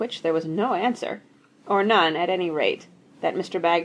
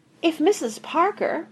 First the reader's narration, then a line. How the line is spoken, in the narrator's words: pleaded the PR man